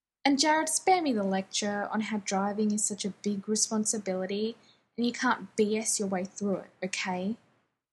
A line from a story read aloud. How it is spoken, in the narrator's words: Jensen snaps